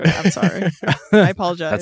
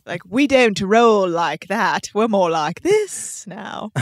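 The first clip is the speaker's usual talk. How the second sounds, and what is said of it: Put-on British Liverpool-ish accent. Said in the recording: “that's a little more Liverpool than I meant it to be ... your British accent”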